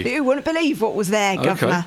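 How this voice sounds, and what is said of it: Put-on Cockney accent. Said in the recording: “Not a Cockney accent.”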